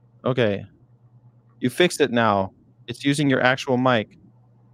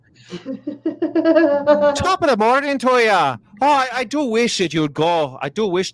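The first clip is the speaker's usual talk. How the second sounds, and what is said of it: Put-on Irish accent. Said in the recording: “Try an Irish accent.”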